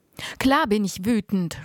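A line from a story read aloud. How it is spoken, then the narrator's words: Shouted. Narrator (German): rief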